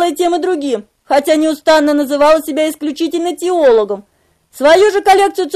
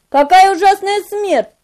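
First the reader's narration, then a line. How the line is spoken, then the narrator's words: Rash exclamation. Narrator (Russian): необдуманно воскликнул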